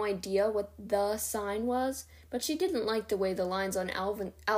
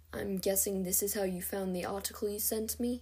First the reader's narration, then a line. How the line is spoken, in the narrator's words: Alden murmured